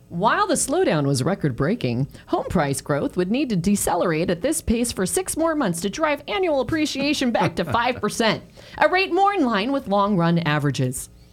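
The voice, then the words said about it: Announcer-style radio voice. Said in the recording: “that was my radio voice.”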